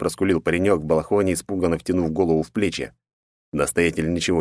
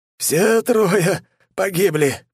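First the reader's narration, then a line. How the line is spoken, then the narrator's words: Wounded man's hoarse rasp. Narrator (Russian): прохрипел сплошь покрытый кровью и ранами послушник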